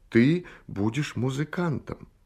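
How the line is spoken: Heartfelt, tender voice. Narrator (Russian): Он сказал проникновенным и ласковым голосом

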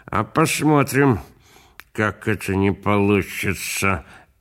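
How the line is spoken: Through clenched teeth, cigarette. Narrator (Russian): говаривал дядя Шура сквозь зубы, потому что у него во рту была папироса

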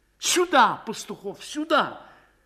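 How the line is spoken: Desperate shout. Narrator (Russian): отчаянно крикнул Звягинцев

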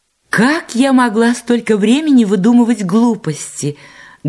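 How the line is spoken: Heated exclamation. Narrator (Russian): горячо воскликнула Гарриет

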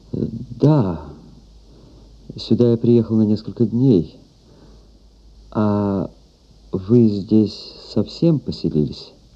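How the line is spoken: Dejected voice. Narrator (Russian): Он ответил упавшим голосом

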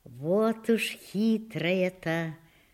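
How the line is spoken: Amused female mumble. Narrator (Russian): бормочет она и улыбается

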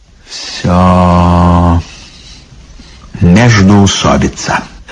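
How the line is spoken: Sad. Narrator (Russian): грустно сказал лишний

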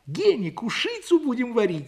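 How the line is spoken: Sudden cry. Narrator (Russian): вскрикнула Лиля

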